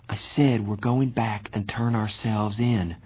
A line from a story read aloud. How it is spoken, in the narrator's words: Johnny repeated in a quiet voice